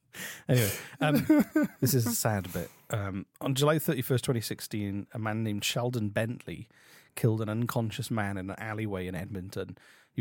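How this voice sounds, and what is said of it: Noticeable non-local accent. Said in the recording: “It's your accent, man. That's all it is. If you didn't have an accent,”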